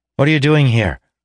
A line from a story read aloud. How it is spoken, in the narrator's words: Weir asked sharply